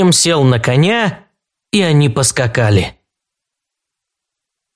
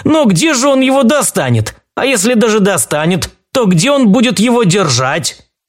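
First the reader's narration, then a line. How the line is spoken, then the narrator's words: Loud guffawing. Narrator (Russian): Капитан королевской гвардии захохотал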